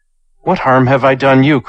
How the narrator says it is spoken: cried Chu

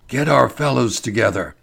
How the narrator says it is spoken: whispered Ferguson

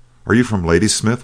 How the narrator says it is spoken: we shouted

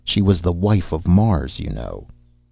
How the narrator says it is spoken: I gritted my teeth, for his mirth put them on edge, and snapped out between them

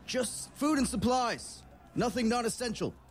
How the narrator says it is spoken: the man on the horse shouts out to all these other riders

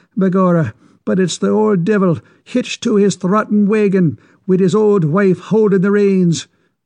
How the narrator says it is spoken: exclaimed Mickey

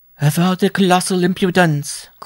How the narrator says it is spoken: cried the matronly Madame Sampson

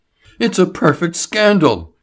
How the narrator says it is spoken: he cried

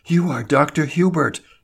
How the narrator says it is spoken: she gasped

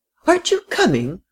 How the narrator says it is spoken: cried the frail, excitable little lady

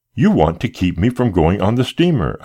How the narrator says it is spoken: I cried

